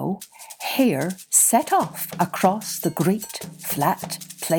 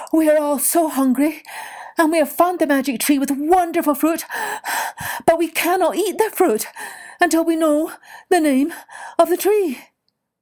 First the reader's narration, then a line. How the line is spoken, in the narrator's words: panted Hare